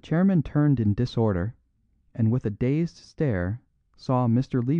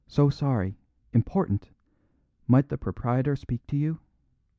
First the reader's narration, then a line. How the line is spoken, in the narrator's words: A fifth waiter was whispering in his ear